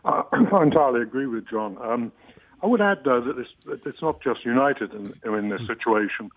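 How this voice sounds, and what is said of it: English accent. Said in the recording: “I'm English, as you may figure out from my accent.”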